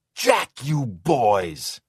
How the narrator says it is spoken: Now screaming so loud his cheeks were red and the cords stood out on the sides of his neck

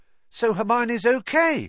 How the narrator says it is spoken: said Ron, brightly

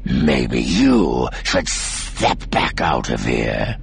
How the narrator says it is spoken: Seer snarled

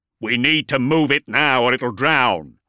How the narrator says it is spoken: growled into his gorget vox

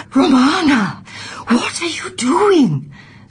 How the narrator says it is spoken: said Sibella in a theatrical whisper

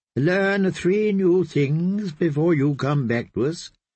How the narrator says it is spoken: the kindly man had commanded Cat

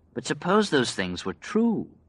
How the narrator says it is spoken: Glenn said gently

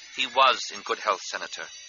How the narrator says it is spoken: Amidala said in a low monotone

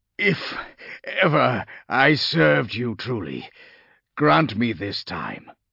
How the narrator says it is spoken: he gasped aloud

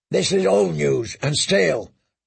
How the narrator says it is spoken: growled the shave-pate

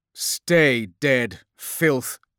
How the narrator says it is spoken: spat Cassian

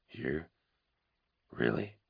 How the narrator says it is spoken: he mumbled

